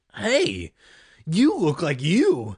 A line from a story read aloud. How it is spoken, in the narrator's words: Greg exclaimed